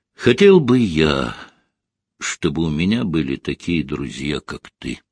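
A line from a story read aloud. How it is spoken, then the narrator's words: Quiet addition. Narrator (Russian): негромко добавил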